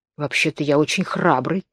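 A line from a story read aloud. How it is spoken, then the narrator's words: Continued in undertone. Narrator (Russian): продолжал тот вполголоса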